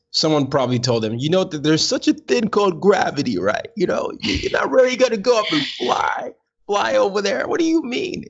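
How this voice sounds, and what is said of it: Old-time American president accent. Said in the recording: “I don't know why I had that accent. ... I was going like for one of those old time presidents. ... that was like an old time accent”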